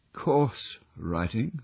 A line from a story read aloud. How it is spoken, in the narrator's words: murmured Holmes